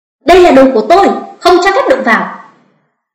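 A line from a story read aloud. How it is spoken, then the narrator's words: Loud shout. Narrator (Vietnamese): Tạ Minh San hét lớn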